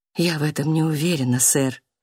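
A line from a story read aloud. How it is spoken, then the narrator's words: Quiet. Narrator (Russian): тихо сказала сестра Джулиана адвокату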